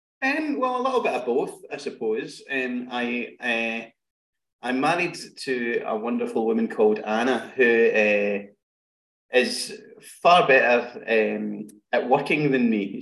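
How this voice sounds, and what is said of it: Scottish accent. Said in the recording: “the absolutely Scottish sensation ... I can speak Scottish”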